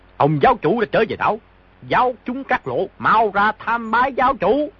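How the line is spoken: Loud raised call. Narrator (Vietnamese): Trương Đạm Nguyệt cao giọng gọi lớn

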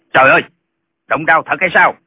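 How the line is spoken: Cry out. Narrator (Vietnamese): Lệnh Hồi Xung la lên

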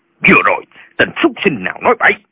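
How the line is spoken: Old man shouting. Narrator (Vietnamese): Lão quát lên

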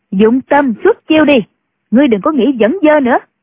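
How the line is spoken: Sharp shout. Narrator (Vietnamese): Nhạc phu nhân quát lên

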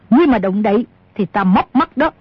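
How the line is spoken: Shouted. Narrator (Vietnamese): Bà ta quát

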